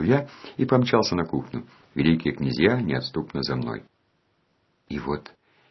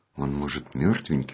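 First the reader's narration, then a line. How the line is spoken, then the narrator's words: Timid question. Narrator (Russian): робко спросил Ники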